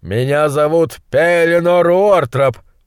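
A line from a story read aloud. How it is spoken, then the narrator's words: Roaring. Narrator (Russian): проревел он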